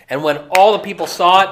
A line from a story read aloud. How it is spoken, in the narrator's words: they shouted